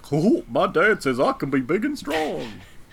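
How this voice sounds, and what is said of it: Funny voice of Godzilla's son. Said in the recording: “That's a funny voice.”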